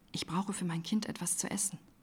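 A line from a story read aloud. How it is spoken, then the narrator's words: Young woman's whisper. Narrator (German): flüsterte die junge Frau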